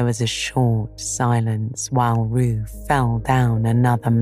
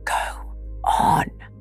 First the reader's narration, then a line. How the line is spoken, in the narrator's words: said Rabbit in a loud whisper behind his paw